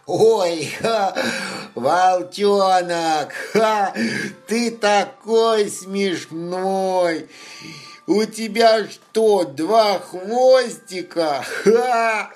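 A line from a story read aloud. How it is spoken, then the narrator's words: Bear cub laughing hard. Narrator (Russian): Медвежонок Лапа смеялся так сильно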